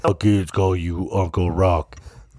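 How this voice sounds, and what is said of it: Imitates another person's voice. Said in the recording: “my Vin Diesel imitation”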